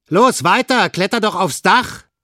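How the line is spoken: Calling out. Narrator (German): rief Olaf

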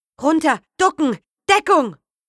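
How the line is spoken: Shouting. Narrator (German): Irgendjemand schrie

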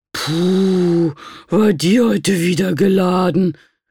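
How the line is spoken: Groaning. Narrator (German): stöhnte sie

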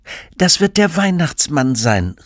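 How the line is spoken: Called out by mother. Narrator (German): rief die Mutter

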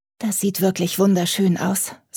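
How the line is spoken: Sighing. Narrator (German): seufzte

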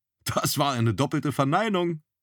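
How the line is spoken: Laughing. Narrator (German): lachte Zorn

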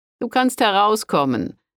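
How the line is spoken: Monk calling out. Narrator (German): rief der Mönch

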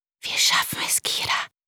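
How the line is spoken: Soothing whisper. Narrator (German): flüsterte dem Säugling ins Ohr und versuchte damit auch sich selbst zu beruhigen

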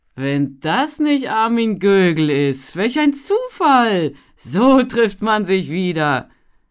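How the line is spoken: Laughing. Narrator (German): Lachend

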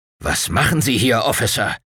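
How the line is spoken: Growling. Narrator (German): knurrte der Colonel

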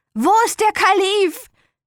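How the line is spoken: Shouting. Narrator (German): schrie

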